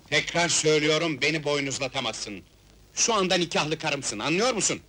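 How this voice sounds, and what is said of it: Shouting angrily. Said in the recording (Turkish): “Bağırma, sağır değilim.”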